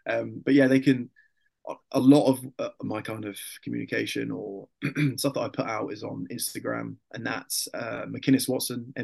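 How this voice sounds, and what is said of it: Tired, fading voice. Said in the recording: “my voice is like slowly dying towards the end of the conversation. I realize how much I talk.”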